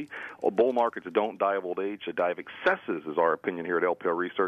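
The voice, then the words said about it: Southern US accent. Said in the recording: “from down south. Always good to hear your southern accent”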